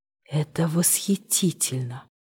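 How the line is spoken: Familiar voice whispering. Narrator (Russian): прошептал до боли знакомый голос

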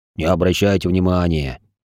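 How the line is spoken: Dwarf, after laughing, tossed off. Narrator (Russian): Отсмеявшись, неучаствующий в драке дворф бросил

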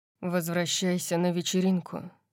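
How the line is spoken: Sighing. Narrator (Russian): вздохнул он

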